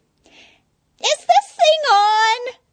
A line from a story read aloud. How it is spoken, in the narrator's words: she squeaked